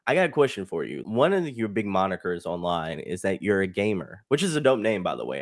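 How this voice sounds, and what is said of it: Southern Texas drawl. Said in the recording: “excuse my Texas drawl there, man. I'm a South boy”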